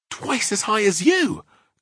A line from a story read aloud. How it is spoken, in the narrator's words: cried Sophie